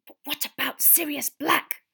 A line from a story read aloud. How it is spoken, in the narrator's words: Hermione hissed